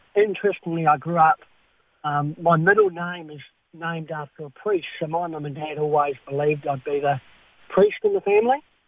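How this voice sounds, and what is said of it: Speech affected by cleft palate. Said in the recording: “You can probably hear from my voice. I've got a cleft palate and a hair lip.”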